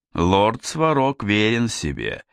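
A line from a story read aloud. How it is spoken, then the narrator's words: Orc's mocking voice. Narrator (Russian): насмешливо сказал орк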